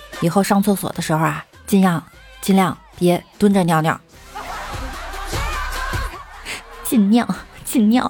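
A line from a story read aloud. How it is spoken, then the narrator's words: Calm, flat. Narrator (Chinese): 同桌淡淡的对他说了一句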